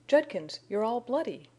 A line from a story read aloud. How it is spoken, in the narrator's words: cried Jane in affright